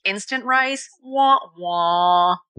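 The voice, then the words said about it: Imitates a sad trombone. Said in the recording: “really good sad trombone imitation”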